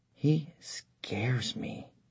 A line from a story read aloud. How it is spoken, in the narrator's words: she whispered to her husband